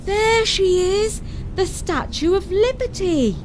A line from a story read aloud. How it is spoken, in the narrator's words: Gabriel called out